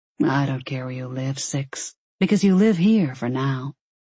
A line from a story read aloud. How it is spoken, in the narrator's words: he said quietly